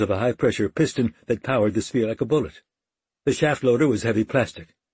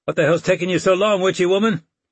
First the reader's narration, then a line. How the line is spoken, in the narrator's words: Lydia she hollered